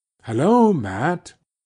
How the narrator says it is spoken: he called out in a voice that shook with joy

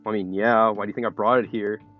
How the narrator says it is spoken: Doughboy says sarcastically

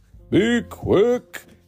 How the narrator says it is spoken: Santa bellowed

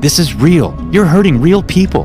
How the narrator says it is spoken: said desperately as I crawled under a table and tried to catch my breath

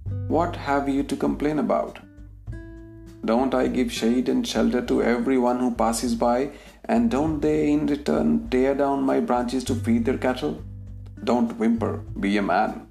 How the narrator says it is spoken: the peepal tree replied coldly

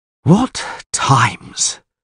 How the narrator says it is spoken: sighed the Castellan

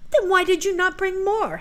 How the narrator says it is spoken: said Helen angrily

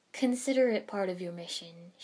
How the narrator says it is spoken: Shibuki said with a laugh

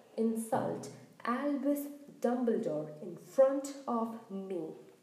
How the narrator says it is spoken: he thundered

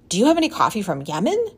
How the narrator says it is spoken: he blurted out

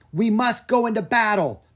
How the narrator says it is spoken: Mina yelled

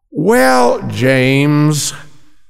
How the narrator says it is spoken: Ellen sighed

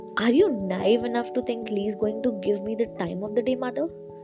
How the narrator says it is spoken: Andrew spat out those words and Hannah felt an alarming sense of fear and aggression radiating from her son

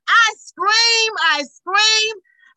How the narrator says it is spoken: I scream with joy

